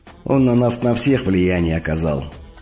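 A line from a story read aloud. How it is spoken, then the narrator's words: Heavy sigh. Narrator (Russian): тяжело вздохнул Змей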